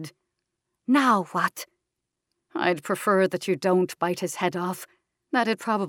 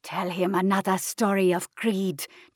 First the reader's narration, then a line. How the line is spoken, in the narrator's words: Jean growled